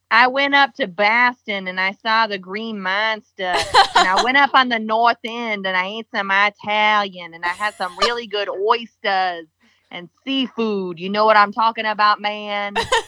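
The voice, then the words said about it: Put-on Boston accent. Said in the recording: “can you do your best Boston accent for us?”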